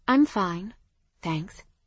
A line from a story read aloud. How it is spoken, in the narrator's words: I said evenly